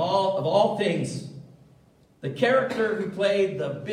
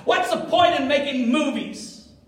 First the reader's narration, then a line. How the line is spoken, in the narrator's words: he even screamed to his cast